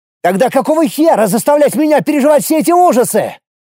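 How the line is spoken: Shouting. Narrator (Russian): крикнул

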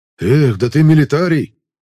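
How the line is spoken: Stunned breathless exclamation. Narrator (Russian): ошарашенно выдохнул боец со шрамом на лбу

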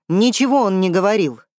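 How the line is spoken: Angry shout. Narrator (Russian): зло крикнул Дербник

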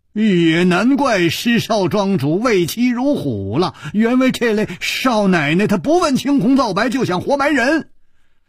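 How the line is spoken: Exasperated and amused. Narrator (Chinese): 楚留香又好气又好笑

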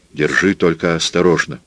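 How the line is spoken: Plain. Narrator (Russian): сказал он

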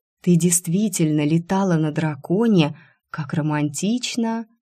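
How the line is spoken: Displeased grumble. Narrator (Russian): Недовольно зашипев, пробурчала

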